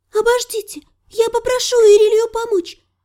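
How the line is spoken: Said hastily. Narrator (Russian): торопливо промолвила Мирей

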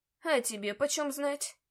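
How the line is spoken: Grumbling. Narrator (Russian): проворчал домовой

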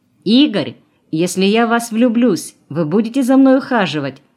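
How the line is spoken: Shouted from afar. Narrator (Russian): крикнула она издалека

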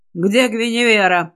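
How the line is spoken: Growl. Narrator (Russian): рыкнул

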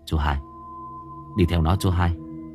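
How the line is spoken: Whisper. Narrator (Vietnamese): tiếng của Thái thì thầm

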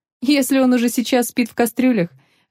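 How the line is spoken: Laughing. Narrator (Russian): рассмеялась Нелла

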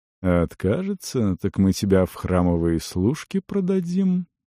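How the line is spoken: Purring. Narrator (Russian): промурлыкал

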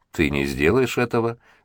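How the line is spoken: Calm reply. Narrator (Russian): спокойно отозвался Ян

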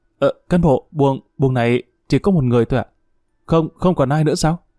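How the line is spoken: Stammering question. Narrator (Vietnamese): Thao nhổm dậy, miệng ấp úng hỏi

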